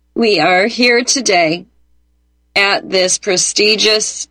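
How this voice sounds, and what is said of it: Spot-on Kamala Harris impression. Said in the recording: “a white woman doing a spot-on impersonation of every Kamala Harris speech, basically, you've ever heard”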